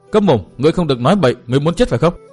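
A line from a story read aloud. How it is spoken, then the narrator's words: Angry shout, womanish voice. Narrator (Vietnamese): lộ vẻ tức khí, y lại dùng giọng đàn bà quát bảo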